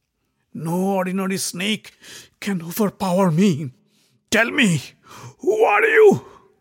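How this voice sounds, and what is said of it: Feeble, weak voice. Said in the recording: “in a feeble voice”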